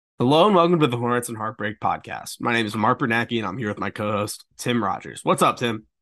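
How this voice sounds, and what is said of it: Slightly congested voice. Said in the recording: “my voice is slightly different tonight. I have COVID. ... Got a little bit of congestion. ... you hear a slight deviation in my voice”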